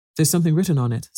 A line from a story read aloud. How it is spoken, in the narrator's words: said Cedric